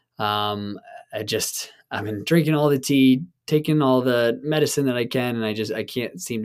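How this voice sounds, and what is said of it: Hoarse, strained sick voice. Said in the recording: “as you can already hear, my voice is a bit shot ... my throat and my voice and my cough has just gotten kind of worse ... I apologize for my audio”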